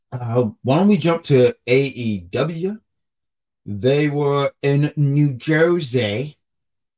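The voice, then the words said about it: Put-on New Jersey accent. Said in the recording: “That was my New Jersey accent ... I was trying to sound like one of the characters from Jersey Shawls.”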